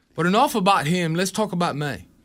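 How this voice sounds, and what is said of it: English accent Simon Cowell impression. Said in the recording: “You can do a Simon Cowell. ... Doing an English accent. ... That's what I was trying to do.”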